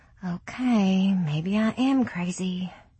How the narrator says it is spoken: she muttered

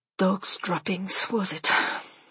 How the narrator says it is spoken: She said, sighing

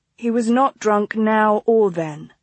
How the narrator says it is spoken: Clara replied evenly

